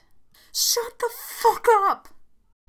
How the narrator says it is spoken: I screamed

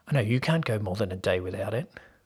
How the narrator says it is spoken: Paul said quietly

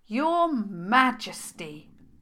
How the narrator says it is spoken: spoke loudly and slowly

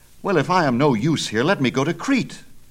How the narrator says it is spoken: cried Theseus

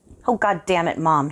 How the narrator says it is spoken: he snapped back

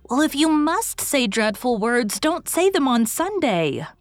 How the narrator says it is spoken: pleaded Dora

